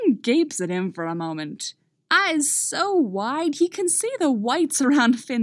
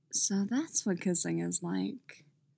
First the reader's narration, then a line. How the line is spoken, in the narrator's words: Finn murmurs, his eyes still huge in his face